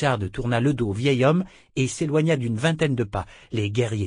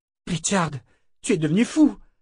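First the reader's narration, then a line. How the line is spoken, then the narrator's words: Exclaimed. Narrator (French): s'écria Callan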